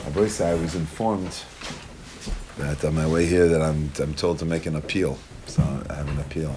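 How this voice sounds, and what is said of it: Weak voice. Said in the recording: “My voice is a little weak.”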